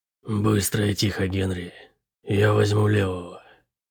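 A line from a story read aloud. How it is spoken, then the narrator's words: Hoarse whisper from behind. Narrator (Russian): хрипло прошептал Шип сзади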